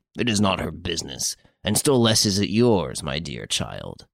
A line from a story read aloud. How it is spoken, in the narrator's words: added gruffly